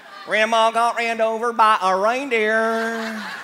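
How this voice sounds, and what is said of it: Put-on Southern US accent. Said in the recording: “you can't sing that song without a southern accent?”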